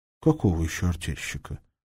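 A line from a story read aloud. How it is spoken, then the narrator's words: Gentle explanation. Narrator (Russian): Рыковский мягко пояснил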